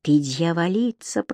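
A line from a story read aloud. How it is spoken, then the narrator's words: Whisper. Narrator (Russian): прошептал он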